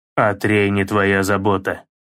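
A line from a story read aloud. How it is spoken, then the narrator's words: Through gritted teeth. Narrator (Russian): процедил Кратос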